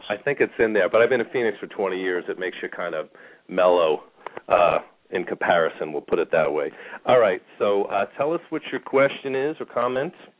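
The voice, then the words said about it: Slight New York accent. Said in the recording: “I just had that New York sound to my voice ... There's a little bit of an accent.”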